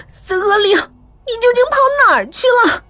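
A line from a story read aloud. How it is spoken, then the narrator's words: Low cry. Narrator (Chinese): 低叫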